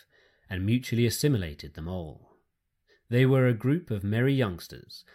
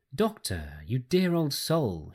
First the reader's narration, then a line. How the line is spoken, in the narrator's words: she cried